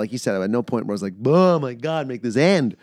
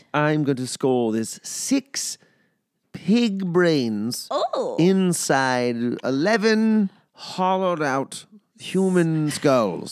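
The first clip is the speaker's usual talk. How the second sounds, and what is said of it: Put-on old English accent. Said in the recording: “in an old English accent”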